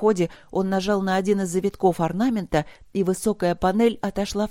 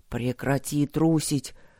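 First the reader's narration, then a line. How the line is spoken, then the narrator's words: Stern self-address. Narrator (Russian): грозно сказал он себе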